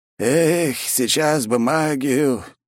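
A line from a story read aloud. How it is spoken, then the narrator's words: Heavy sigh. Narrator (Russian): тяжело вздохнул Флавий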